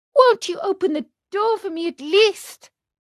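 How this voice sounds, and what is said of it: Pleading, beseeching voice. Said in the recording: “in a beseeching voice”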